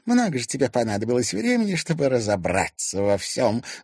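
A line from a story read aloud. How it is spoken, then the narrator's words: Angry reply. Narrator (Russian): злобно ответила ему Ирина Зверева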